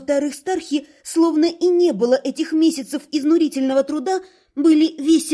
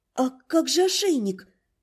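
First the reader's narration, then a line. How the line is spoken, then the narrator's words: Shy quiet whisper. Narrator (Russian): тихонько прошептала ему, стесняясь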